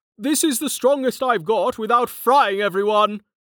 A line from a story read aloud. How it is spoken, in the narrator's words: he yelled